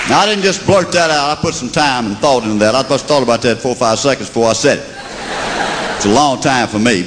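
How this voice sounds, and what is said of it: Southern American accent. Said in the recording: “We say pop in the South ... I am convinced God talks like us ... I think God has a southern accent”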